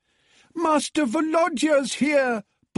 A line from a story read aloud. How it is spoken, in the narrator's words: bawled Natalia, the cook